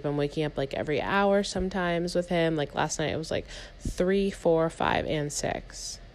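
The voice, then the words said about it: Exhausted, sleepy-sounding voice. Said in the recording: “I'm just so exhausted. Like I'm falling asleep on this podcast right now, you guys. I don't know if you can hear it in my voice,”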